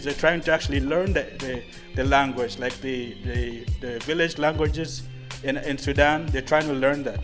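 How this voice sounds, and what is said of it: African accent. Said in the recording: “I will never lose my African accent. I love my African accent.”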